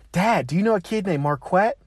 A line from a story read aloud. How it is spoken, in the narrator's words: she came home excitedly saying